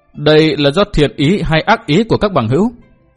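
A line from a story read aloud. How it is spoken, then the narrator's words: Laughing loud question. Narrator (Vietnamese): Liễu Tổn Trung ha hả cười lớn hỏi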